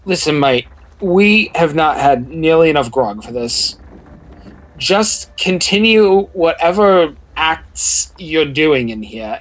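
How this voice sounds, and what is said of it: Put-on accent, inconsistent and shifting. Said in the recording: “in our inconsistent accents ... when did their accent change? ... I can't keep them straight. I'm legit bad at this.”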